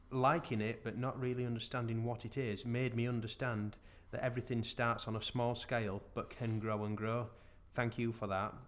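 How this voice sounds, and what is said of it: Northern English accent. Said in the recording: “you read it in a northern accent”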